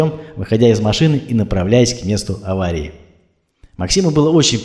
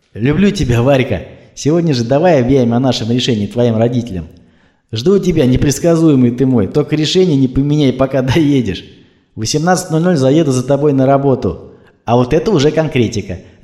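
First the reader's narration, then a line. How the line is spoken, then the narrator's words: Ringing happy laughter. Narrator (Russian): рассмеялась она звонким и счастливым смехом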